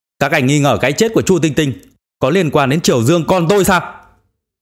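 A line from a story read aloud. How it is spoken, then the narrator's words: Sudden shout. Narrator (Vietnamese): chợt hét lên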